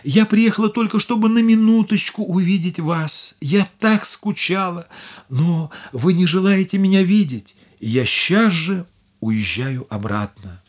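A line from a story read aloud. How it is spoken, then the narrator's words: Tearful. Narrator (Russian): Бедная Дорагли сказала сквозь слезы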